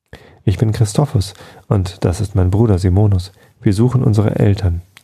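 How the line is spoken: Trembling voice. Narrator (German): erklärte mit zitternder Stimme

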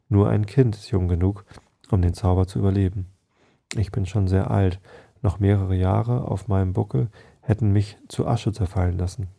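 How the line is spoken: Calm female explanation. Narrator (German): erklärte sie mit ruhiger Stimme

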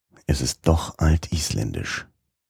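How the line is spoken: Grumbled into beard. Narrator (German): brummte in den Bart

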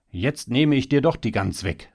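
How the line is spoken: Called out. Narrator (German): rief er

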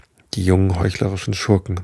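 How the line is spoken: Grim, furious muttering. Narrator (German): murmelte er voll Ingrimm

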